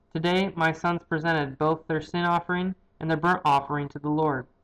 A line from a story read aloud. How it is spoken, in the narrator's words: he said